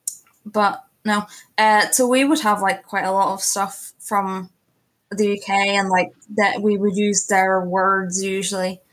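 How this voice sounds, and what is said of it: Northern Irish accent. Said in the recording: “a lot of people know about like Northern Ireland ... my accent is very different to ones in Southern Ireland would be”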